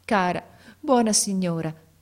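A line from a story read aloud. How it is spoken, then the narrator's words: Sobbing with great effort. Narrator (Italian): disse a gran fatica singhiozzando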